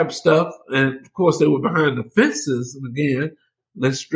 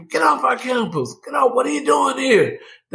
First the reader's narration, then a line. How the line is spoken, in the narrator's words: challenging, screaming